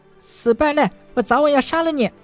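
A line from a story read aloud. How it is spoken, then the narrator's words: Furious aggrieved shout. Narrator (Chinese): 东方凤凰的脸上满是不甘和委屈之色，愤怒地冲着陈南喊道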